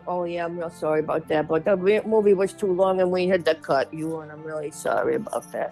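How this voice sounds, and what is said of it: Imitates another person's voice. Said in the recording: “That's such a good Penny Marshall. ... So good at that impression.”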